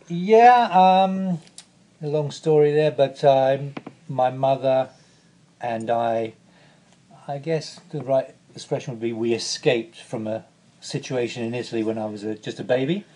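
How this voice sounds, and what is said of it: British accent. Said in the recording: “British accent”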